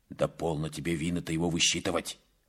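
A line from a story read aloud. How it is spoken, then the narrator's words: Angry. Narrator (Russian): сказал Наяну сердито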